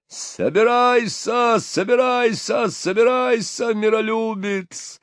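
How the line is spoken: Bellowing. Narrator (Russian): орал Патрик

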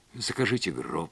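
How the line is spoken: Whisper. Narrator (Russian): прошептала Лилиан

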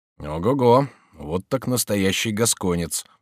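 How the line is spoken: Mutter. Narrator (Russian): пробормотал Робер Брике

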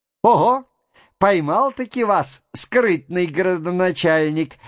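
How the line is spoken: Loud laughing cry. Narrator (Russian): возопил, смеясь, Петр Степанович

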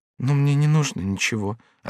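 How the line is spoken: Barely audible reply. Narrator (Russian): отвечала Коломба едва слышным голосом

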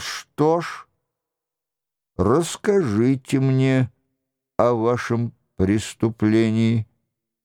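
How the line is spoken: Forced calm, curt. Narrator (Russian): овладев собой отчаянным усилием воли, спокойно бросил

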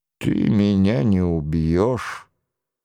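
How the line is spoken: Eerily calm voice. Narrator (Russian): сказал Нострадамус пугающе мирным голосом

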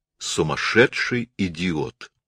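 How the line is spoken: Calm. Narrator (Russian): сказала она спокойно

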